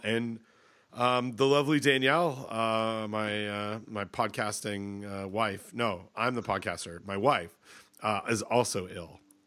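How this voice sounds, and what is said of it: Congested, stuffed-up recovering voice. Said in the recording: “I was all stuffed up ... my voice is coming back ... I'm still stuffed up as well”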